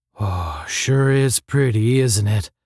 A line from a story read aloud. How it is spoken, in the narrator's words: asked Astro, his voice strangely husky